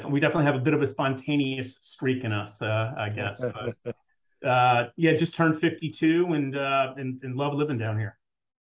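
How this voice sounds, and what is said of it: Blended Jersey and Southern accent. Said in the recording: “your accent has been blended, right? You put it in a little blender, and now it's all mixed up. And so you still got a little Jersey speed, but it's slowed down a”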